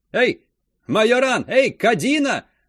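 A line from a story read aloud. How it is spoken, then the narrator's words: Shout. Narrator (Russian): закричал он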